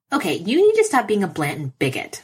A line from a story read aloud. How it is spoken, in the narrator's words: Foggy snaps